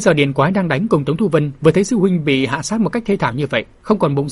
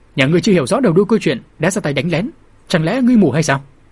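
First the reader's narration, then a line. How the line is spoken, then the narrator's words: Angry loud shout. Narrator (Vietnamese): thiếu niên đã nổi nóng quát lớn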